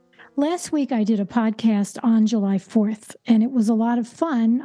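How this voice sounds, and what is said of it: Hoarse, strained voice. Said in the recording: “apologize for my voice. It seems like I'm losing it”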